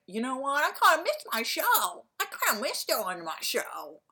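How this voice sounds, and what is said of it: Jay Leno impression. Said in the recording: “my Jay Leno impression”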